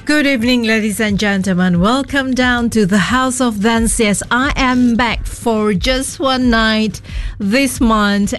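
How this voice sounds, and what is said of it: Slightly husky voice. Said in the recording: “feeling under a bit, you know, bit of the weather ... My voice is a bit husky in a sexy way”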